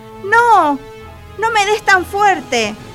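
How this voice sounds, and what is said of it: Very thin, pleading little voice. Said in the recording (Spanish): “una vocecita muy fina, muy fina, que decía con acento suplicante”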